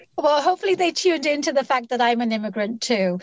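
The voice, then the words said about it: London English accent. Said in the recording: “where your accent comes from ... I was born and raised in London”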